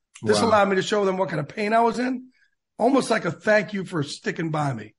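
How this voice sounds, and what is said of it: Choked up, emotional voice. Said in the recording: “I'm getting choked up talking about it”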